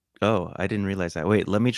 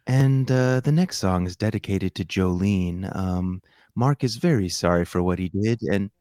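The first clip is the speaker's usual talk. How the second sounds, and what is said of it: Smooth late-night radio DJ voice. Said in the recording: “let me try to be like you. This is my midnight radio DJ voice.”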